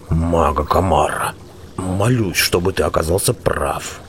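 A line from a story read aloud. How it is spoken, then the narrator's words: Muttering from behind. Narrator (Russian): услышал он за спиной бормотание Белвара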